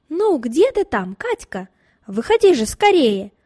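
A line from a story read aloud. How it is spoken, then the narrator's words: Impatient shouting. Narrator (Russian): кричал от нетерпения Николай Васильевич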